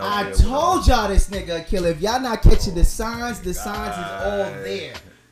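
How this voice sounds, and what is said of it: Strong Brooklyn accent. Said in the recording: “I got a bad Brooklyn accent”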